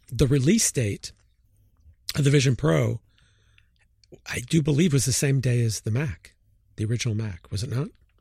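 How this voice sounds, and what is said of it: Strained, fading hoarse voice. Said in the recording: “I'm losing my voice here”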